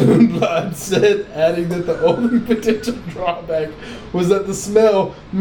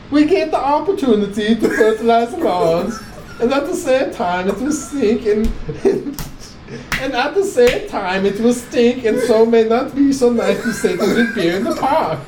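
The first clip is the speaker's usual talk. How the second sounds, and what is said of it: Put-on Swedish accent. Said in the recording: “Should I do a Swedish accent?”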